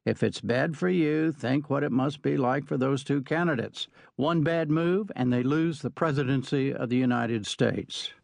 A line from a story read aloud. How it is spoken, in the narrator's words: She said quite calmly